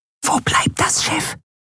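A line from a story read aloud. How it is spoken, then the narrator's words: Whisper in ear. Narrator (German): flüsterte Nelen ihr ins Ohr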